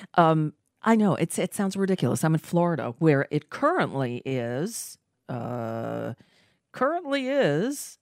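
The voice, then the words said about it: Voice off from a cold. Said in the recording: “As you can hear, sorry, my voice is a little off. I'm under the weather. I'm fighting back a winter cold.”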